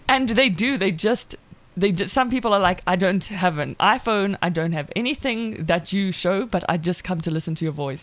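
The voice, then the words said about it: South African accent. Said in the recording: “my accent and my voice ... your voice is so amazing ... the South African accent is like the number one most liked accent”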